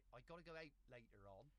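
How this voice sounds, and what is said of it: Put-on Devon accent. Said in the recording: “Well, I could do a Devon accent. ... I sound like Fred West.”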